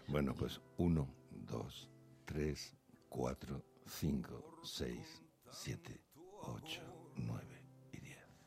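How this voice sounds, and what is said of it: Radio announcer voice. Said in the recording (Spanish): “tiene voz de locutor”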